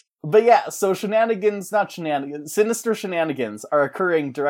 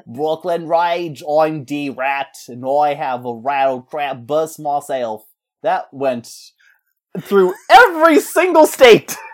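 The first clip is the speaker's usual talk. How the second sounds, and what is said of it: Put-on Brooklyn accent. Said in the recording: “the Brooklyn accent”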